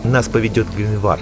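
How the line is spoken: Plain. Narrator (Russian): сказал он Белвару

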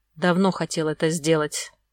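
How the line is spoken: Hoarse man's voice. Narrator (Russian): хрипло произнес мужчина

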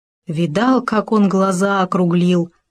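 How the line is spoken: Plain, hare. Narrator (Russian): сказал заяц

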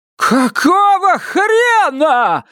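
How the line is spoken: Furious yell. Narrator (Russian): заорала Вильма

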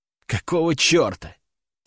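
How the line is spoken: Muttering to no one. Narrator (Russian): пробормотал в пустоту

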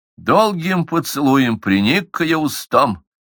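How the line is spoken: Sad. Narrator (Russian): сказал печально

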